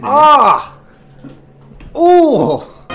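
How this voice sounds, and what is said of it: Pained yelps imitating a kicked football. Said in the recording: “That's my impression of a football.”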